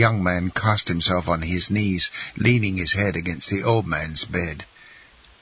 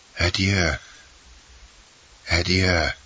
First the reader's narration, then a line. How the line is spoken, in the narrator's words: murmured the old man